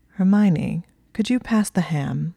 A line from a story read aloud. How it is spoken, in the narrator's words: Neville asked in a low purr